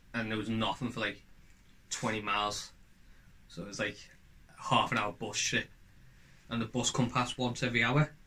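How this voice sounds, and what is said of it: Scouse accent. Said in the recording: “Scouse Mouse... my accent stood out”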